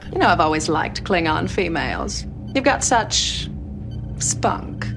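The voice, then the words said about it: Mid-Atlantic socialite accent. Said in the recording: “mid Atlantic accent ... She's being a fancy lady ... playing like a Maryland socialite”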